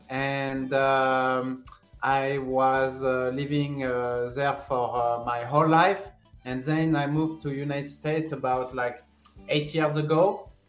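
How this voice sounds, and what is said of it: French accent. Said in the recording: “I'm from France ... my accent is still there and still I think it's not gonna leave ... Even though you do have an accent, you pronunciate everything perfectly”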